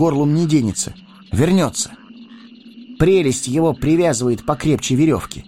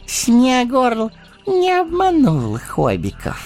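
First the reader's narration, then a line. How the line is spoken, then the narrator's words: Pleased cooing. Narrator (Russian): довольным голосом проворковал он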